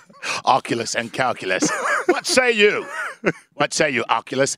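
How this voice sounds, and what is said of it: Put-on British accent, ancient Roman. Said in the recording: “you being ancient Roman with a British accent”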